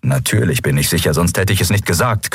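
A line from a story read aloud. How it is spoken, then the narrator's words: Growling. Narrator (German): Knurren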